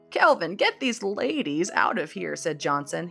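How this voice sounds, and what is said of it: Old man character voice. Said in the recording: “He's an old man, that's why I'm doing that voice.”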